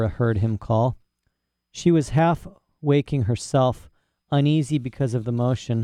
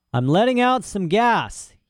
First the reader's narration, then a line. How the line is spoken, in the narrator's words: he shouted to Serafina Pecola